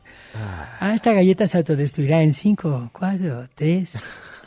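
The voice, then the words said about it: Put-on Chinese accent. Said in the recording (Spanish): “decirlo así como en acento chino”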